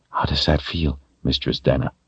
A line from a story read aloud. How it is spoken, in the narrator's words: He whispered